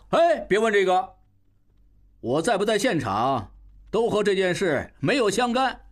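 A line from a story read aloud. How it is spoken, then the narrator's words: Loud shout. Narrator (Chinese): 应瑜大叫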